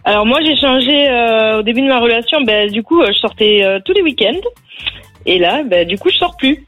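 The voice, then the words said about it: Southwestern French accent, Haute-Garonne. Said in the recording (French): “je mets un billet sur la Haute-Garonne ... t'as l'accent.”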